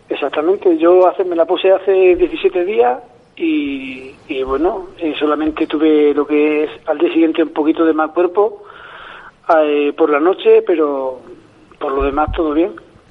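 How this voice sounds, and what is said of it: Noticeable regional Spanish accent. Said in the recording (Spanish): “se le nota más el acento a él”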